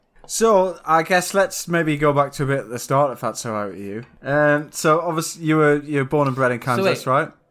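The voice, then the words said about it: Northern English accent. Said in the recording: “You're the one in the north, right? ... I can hear it in your accent.”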